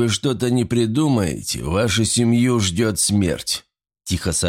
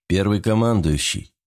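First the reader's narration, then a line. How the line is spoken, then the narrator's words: Dry reply. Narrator (Russian): сухо ответил адмирал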